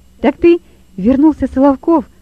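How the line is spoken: Exclaiming. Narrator (Russian): воскликнул Лёва

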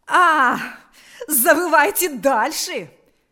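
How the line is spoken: Shouting again. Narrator (Russian): вновь закричала она

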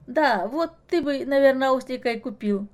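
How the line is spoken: Giggling. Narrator (Russian): хихикнула Маша

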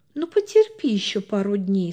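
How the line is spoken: Gentle, affectionate. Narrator (Russian): сказала она ласково

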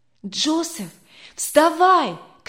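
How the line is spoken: Shouted. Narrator (Russian): крикнул он

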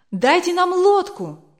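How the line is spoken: Crowd shouting. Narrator (Russian): кричали пилигримы

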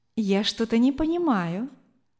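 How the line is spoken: Tender woman's voice. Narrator (Russian): ласково сказала женщина

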